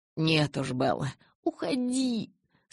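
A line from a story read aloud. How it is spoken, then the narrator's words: Moaning. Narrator (Russian): Снова застонала я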